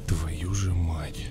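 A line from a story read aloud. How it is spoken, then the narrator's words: Whisper. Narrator (Russian): прошептал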